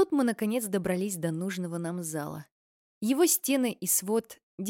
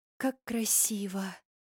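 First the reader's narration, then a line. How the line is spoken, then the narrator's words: Sighing. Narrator (Russian): вздохнула Мини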